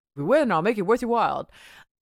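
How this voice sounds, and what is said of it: Imitates another person's voice. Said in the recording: “doing a Rodney Dangerfield impression”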